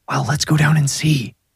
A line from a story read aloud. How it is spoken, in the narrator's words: Brundy whispered, as if whatever was causing the heat might overhear him